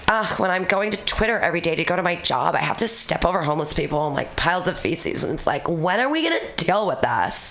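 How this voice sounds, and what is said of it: Mocking stereotyped Becky voice. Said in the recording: “I did a Becky voice”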